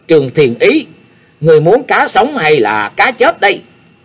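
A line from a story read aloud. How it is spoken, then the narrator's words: Loud shout. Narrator (Vietnamese): cao giọng quát lên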